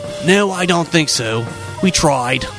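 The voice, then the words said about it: Rough Australian accent, Rupert Murdoch impression. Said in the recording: “I say that way because he's Australian. That was a quick and dirty Australian accent”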